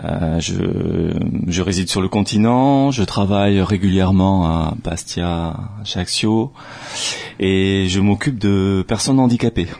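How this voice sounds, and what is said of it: Sing-song southwestern French accent. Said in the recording (French): “Je ne sais pas si on l'entend un petit peu à ton accent chantant. ... Je suis originaire du sud-ouest.”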